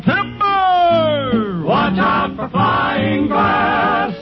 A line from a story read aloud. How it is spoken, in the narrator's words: I yelled